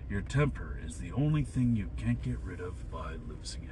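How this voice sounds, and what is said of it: Bad Jack Nicholson impression. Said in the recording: “terrible Jack Nicholson impression”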